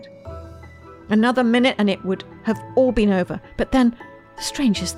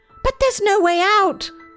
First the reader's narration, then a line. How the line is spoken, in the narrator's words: they cried